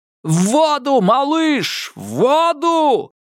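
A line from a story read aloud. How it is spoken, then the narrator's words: Desperate yell. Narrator (Russian): заорал Нортон, осознав, наконец, что это единственный, хоть и крохотный шанс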